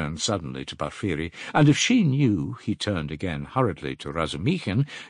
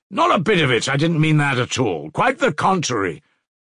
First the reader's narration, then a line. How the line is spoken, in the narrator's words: shouted Razumihin, distressed